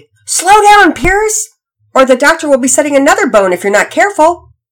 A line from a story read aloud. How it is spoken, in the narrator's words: Daddy yelled out playfully